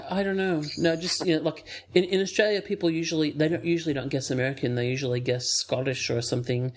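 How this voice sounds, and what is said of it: Hybrid accent of unclear origin. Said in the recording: “he's got that weird hybrid accent... the accent without country”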